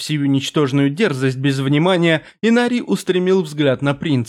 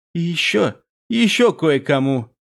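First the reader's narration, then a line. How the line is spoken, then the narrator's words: Hoarse, another's voice. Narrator (Russian): прохрипел Малик голосом Амолии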